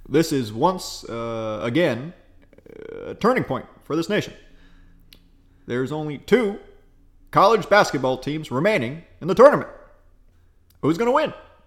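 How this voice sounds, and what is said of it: Good Barack Obama impression. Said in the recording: “That's really fucking good, actually. ... That's really good. ... my best impersonation ... my Obama, I think is pretty good”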